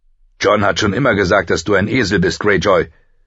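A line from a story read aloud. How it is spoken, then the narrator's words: Said loudly. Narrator (German): sagte Rob laut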